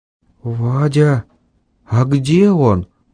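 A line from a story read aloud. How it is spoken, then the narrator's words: Quiet question. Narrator (Russian): Тихим голосом спросил Ванька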